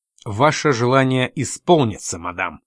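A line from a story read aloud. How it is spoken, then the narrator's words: Angry. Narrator (Russian): сердито сказал Боуэрт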